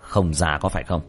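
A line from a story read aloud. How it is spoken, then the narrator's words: Cold. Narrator (Vietnamese): Tiểu Thất lạnh lùng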